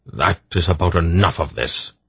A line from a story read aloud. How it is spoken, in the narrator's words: Belgareth snapped